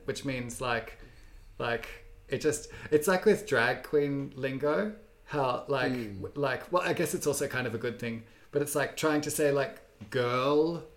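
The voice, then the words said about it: Australian accent. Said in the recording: “I have this Australian accent”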